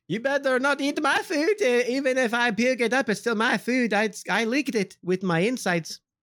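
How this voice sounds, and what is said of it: Convincing put-on accent. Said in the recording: “Your accent's pretty good. I wish I had it. ... I would not have guessed that was not your real voice”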